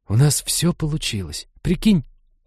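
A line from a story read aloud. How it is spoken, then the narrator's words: Excited conspiratorial whisper. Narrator (Russian): Таким восторженно заговорщическим тоном прошептала Лиза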